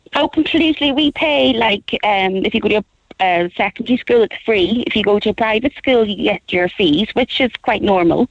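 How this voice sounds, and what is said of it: Northern Irish Belfast accent. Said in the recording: “you can tell by my accent, I come from Belfast”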